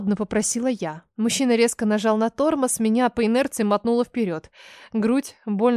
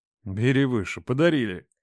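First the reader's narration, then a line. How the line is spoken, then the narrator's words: Wry snort. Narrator (Russian): Хмыкнул Рома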